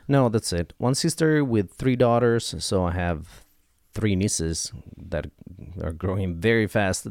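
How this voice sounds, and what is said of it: Mixed American and Italian accent. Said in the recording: “my half-American, half-Italian accent.”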